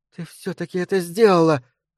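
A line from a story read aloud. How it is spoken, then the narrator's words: Exclaiming. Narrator (Russian): воскликнула Харука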